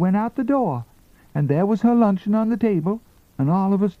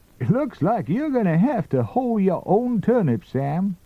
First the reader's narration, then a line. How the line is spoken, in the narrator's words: Grandpa chuckled